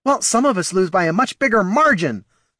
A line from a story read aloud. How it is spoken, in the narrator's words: snapped the Knoll